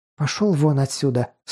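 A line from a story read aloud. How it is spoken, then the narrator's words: Hiss. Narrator (Russian): снова прошипела Алиса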